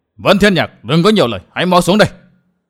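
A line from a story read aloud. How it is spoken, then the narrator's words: Roaring. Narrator (Vietnamese): Song Kích Cái Thiên gầm lên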